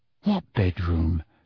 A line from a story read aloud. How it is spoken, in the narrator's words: said Harry, dropping his voice to a whisper